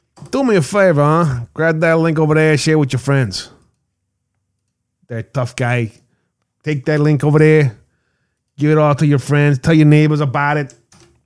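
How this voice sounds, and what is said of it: Put-on New Jersey accent, deliberately bad. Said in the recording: “My worst Jersey accent.”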